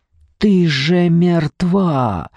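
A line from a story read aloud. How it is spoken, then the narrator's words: Rasping. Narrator (Russian): хрипел Павел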